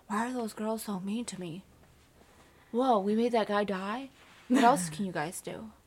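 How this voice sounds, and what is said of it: Imitates a movie character's voice. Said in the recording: “That was a great impression”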